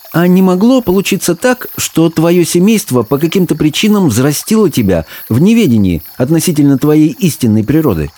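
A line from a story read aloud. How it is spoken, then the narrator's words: Near exclamation. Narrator (Russian): Абдулла едва не воскликнул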